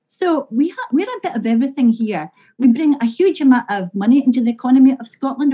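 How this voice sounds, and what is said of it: Scottish accent. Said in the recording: “it was just your accent. You Scots can be a little bit tricky to understand.”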